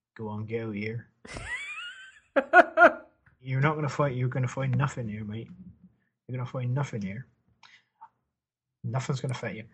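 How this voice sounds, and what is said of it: Put-on rural yokel accent. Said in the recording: “in a more of a sort of yokely accent”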